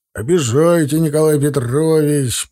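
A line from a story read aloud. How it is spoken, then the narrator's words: Deep bass, loud whoop. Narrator (Russian): пробасил и громко гикнул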